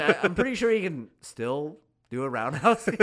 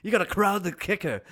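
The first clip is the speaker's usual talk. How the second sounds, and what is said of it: British accent impression. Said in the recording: “That's my British accent. That's my Bisping accent.”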